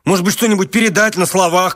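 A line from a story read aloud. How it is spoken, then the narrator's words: Shouted. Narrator (Russian): крикнул он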